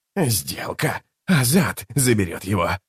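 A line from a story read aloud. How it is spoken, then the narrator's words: Hoarse, shaken high priest. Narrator (Russian): прохрипел верховный жрец, который все еще шатался после встречи с Тоннойским чародейством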